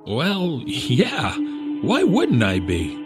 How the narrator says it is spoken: He laughed a bit

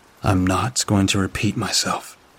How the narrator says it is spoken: I answered calmly

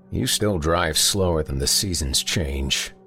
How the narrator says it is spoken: he grumbled

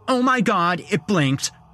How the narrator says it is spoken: the girl cried out

